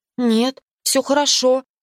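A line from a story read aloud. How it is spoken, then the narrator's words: Confused faltering babble. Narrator (Russian): растерянно пролепетала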